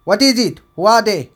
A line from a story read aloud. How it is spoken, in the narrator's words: shouted above the intense clamor of the crowd